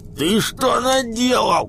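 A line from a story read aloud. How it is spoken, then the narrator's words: Yelling. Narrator (Russian): Зайка орал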